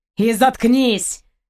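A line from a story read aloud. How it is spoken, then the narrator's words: Angry captain cutting off. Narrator (Russian): зло оборвал капитан попытки Алайна возразить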